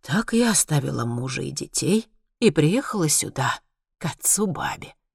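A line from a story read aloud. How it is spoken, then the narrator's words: Dreamy sigh. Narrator (Russian): вздохнула она мечтательно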